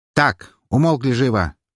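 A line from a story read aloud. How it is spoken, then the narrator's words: Barked from the entrance. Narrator (Russian): рявкнуло со стороны входа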